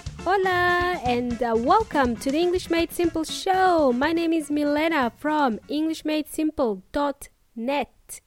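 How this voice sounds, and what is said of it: Mild Eastern European accent, Kiwi tinge. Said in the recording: “I like to say that I have a hybrid accent. It's a bit of New Zealand accent ... And it's a bit of Australian accent too, but for the most part, it is an Eastern European accent. ... my accent is not as strong as that of my parents”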